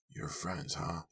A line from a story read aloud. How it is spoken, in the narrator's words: He murmured